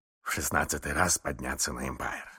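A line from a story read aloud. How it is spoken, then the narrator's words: Muttering. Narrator (Russian): бормотал мистер Адамс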